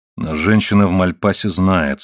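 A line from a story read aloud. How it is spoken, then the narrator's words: Grim. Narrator (Russian): сказал сэр Оливер мрачно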